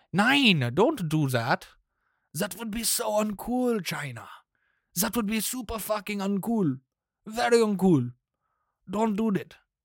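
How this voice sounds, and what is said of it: Put-on German accent. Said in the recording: “That was my German impression.”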